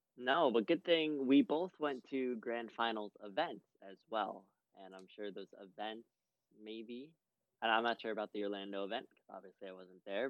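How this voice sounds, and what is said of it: Slightly hoarse, strained voice. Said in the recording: “My voice is a little messed up. ... Just a little. ... I'm recovering ... screaming in her ear”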